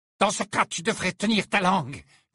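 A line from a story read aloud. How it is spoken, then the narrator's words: Growling. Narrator (French): gronda Bellatrix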